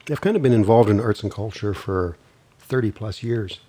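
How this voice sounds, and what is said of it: Rough voice from a cold. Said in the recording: “I'm getting over a cold, so I'm sounding a little rough.”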